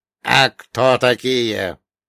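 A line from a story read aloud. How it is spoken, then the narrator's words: Creaky old voice. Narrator (Russian): проскрипел старческий голос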